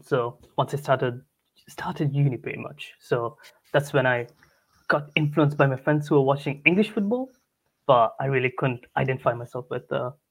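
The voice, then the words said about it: Mixed Italian, Sri Lankan, English accent. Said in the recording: “my accent's kind of all over the place at the moment. So it's not really Italian, not really Sri Lankan, not really English.”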